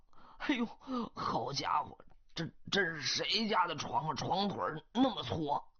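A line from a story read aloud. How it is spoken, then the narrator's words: Exclaiming. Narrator (Chinese): 他马上又感叹道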